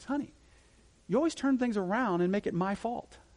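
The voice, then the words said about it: Very sweet imitated voice. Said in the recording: “in this very sweet voice,”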